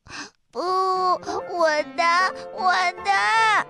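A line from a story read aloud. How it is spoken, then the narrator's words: Crying. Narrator (Chinese): 他哭着说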